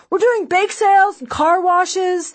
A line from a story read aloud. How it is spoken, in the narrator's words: they shout